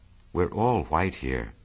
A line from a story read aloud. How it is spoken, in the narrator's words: murmured Jordan